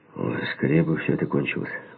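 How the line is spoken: Grumbled. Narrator (Russian): буркнул я

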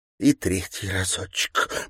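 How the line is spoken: Whisper. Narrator (Russian): прошептала Горская

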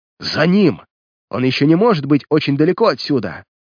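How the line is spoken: Shouting. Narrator (Russian): в выступлении кричала Инесс

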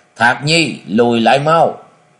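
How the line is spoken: Panicked roar. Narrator (Vietnamese): Thất Hải Vật Tẩu hoảng hốt rồi gầm to

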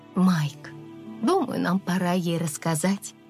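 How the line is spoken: Mother's soft voice. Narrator (Russian): мягко произнесла мама

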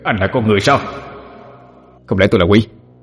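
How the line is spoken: Cold reply. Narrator (Vietnamese): Ngô Hoài Sinh lạnh lùng đáp

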